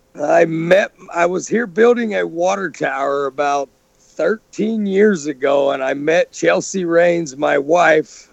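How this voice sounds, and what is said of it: Slight Texan accent. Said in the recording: “our listeners can probably pick up a little bit of an accent... I am from Texas.”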